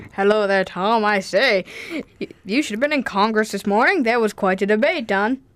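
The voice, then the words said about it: Mock serious historical-figure voice. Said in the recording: “do really serious voices ... we can do this impersonation”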